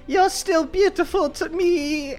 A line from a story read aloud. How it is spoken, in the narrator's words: The woman who was previously on a wheelchair screams